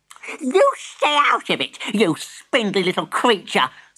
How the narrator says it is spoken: snapped Granny

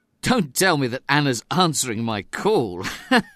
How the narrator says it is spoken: laughed David

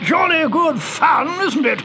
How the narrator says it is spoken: yelled the commander

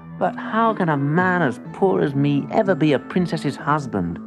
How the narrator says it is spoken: He asked sadly

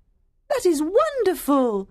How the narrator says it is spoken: Diana cried

